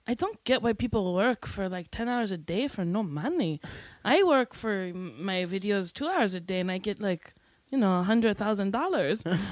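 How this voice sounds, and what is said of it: Bad put-on Puerto Rican accent. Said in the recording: “I'm doing a very bad accent for her because she's some ... Puerto Rican”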